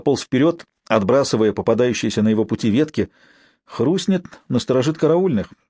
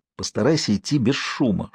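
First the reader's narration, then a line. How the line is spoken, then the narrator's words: Whispered warning. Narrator (Russian): шепотом предупредил Алексей Конрада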